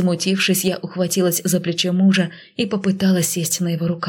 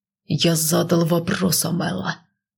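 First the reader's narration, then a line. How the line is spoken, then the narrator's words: Growled. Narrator (Russian): прорычал он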